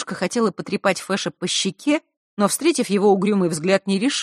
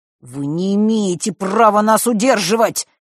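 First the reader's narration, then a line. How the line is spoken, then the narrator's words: Through clenched teeth. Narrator (Russian): процедил Фэш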